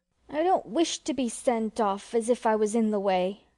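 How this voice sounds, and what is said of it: Hurt, aggrieved tone. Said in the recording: “in an injured voice”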